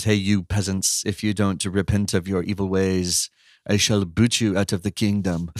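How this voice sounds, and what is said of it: Made-up haughty put-on accent. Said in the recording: “I don't know what accent it is. It's not an accent of any culture. It's just one I made up.”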